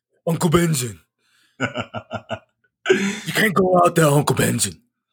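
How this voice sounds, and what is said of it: Deep, strained imitated character voice. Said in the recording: “why are you always talking like deep like this ... You talking like Jon Snow. Like, it's always cold outside and your vocal cords can't stretch.”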